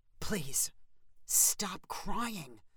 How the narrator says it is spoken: Steve whispered loudly

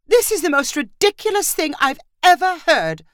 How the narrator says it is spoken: Marissa cried

